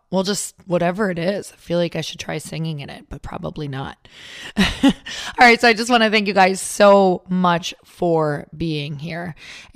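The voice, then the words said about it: Raspy, hoarse voice. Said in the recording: “raspy voice ... we'll call it a sexy voice”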